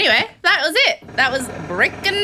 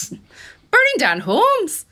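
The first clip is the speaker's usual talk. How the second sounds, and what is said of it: Put-on accent, high-pitched endings. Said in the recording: “I'm just having fun doing this accent now. I don't know why I end everything in this high pitch.”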